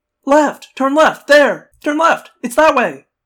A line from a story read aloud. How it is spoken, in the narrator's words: Cassie said, taking time out from screaming